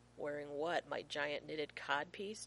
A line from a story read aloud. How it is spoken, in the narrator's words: John asks dryly